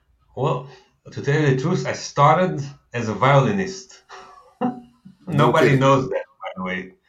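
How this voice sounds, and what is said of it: Thick Israeli accent. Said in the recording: “this is going to be a thick Israeli accent podcast today”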